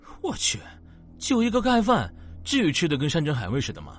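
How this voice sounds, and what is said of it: Quiet, mocking sarcastic voice. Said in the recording (Chinese): “小声冷嘲道”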